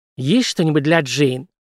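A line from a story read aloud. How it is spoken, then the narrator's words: Nasal hiss. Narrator (Russian): зашипела носом Танго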